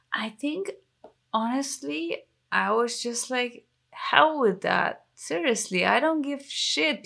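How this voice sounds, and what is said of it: English with a German accent. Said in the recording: “my perfect English that still has a German accent”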